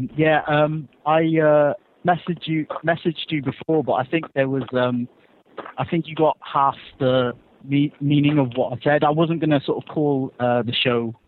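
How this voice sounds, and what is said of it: English accent. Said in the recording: “I think I got that from the accent”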